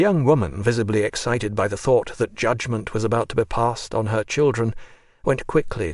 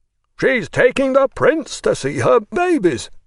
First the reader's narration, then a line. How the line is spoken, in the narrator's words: the general shouted, laughing